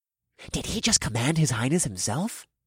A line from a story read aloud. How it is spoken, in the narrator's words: a shocked voice hissed